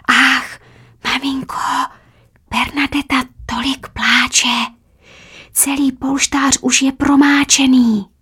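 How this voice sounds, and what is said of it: Drawn-out night-time whisper. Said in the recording (Czech): “nočně šeptavý hlas protahuje slova”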